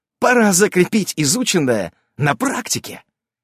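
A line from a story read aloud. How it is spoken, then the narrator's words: Enthusiastic exclamation. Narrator (Russian): с энтузиазмом воскликнула Наса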